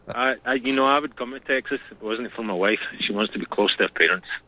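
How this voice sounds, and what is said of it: Southwest Scottish accent. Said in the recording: “I'm from the southwest of Scotland, Dumfrieshire. ... A little bit different dialect.”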